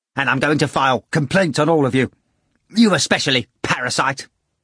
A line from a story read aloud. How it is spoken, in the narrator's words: Ivan said impatiently